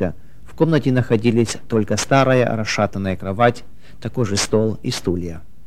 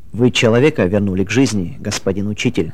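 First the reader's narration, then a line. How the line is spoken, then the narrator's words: Plain. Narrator (Russian): сказал доктор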